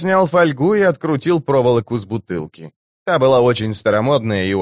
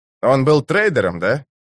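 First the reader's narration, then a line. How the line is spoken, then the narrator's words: Woman laughing. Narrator (Russian): Она рассмеялась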